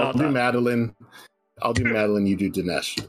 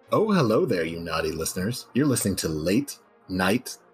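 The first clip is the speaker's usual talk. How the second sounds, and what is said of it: Put-on sexy, sultry voice. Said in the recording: “in a more sexy voice ... Do you think you can do a good sexy voice? ... you do the sexy one”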